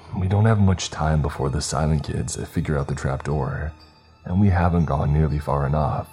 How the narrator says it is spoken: I sighed

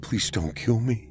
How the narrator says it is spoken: he said quietly

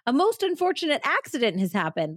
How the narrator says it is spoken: Lawrence called out from the stage

